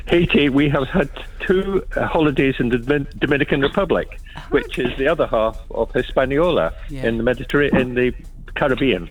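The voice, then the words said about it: Slight Scottish accent. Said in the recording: “I sound a bit Scottish”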